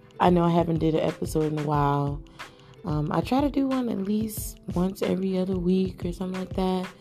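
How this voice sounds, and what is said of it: Tired, just-woke-up voice. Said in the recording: “my voice sounds a little weird. I honestly just woke up. ... So I'm tired.”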